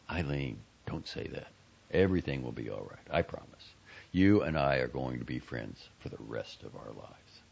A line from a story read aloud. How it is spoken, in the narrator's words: Quietly, he said